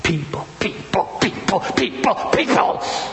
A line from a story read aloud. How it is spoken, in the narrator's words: she's muttering under her breath